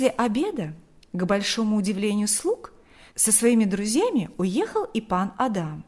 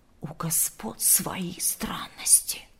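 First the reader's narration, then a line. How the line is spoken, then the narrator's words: Servants whispering. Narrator (Russian): шептались слуги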